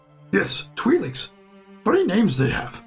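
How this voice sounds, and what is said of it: Yoda impression, inverted speech. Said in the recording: “Yoda? ... So, Master Yoda”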